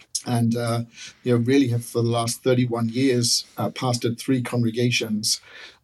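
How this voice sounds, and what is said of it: English accent. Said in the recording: “Grew up in England, as you can probably tell from my accent. People always confuse me, think I'm from East Texas.”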